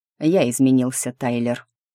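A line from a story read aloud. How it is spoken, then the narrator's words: Calm reply. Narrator (Russian): спокойно ответил Ник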